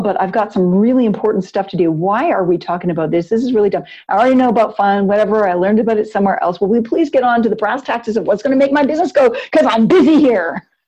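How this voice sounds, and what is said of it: Cranky, impatient adult voice. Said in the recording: “the like cranky adult voice that I'm mimicking”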